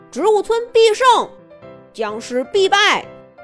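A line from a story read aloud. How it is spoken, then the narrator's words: Group chant. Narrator (Chinese): 所有的植物们都一块儿喊了起来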